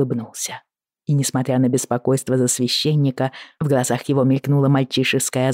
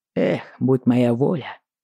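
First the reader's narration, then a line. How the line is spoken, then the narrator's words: Sighing. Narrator (Russian): вздохнул Джейми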